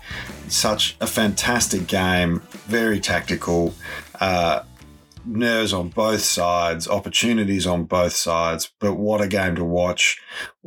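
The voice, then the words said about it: Slightly croaky hoarse voice. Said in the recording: “my voice sounds a little croaky, it's because we were cheering so loudly at our house last night”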